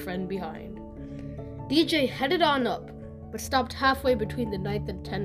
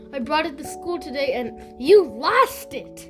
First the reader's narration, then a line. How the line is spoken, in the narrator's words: Kathy exclaimed with delight